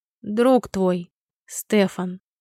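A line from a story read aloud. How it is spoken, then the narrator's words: Slow deliberate speech. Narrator (Russian): медленно и раздельно заговорил Сибранд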